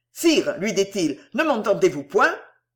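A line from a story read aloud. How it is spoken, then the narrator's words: Almost impatient repetition. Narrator (French): d'Eslon lui répéta la même chose et, d'un ton presque impatient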